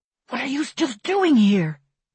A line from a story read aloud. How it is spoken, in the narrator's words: he hisses at me